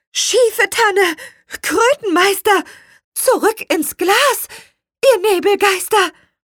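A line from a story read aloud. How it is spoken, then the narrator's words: Called out. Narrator (German): rief Petronella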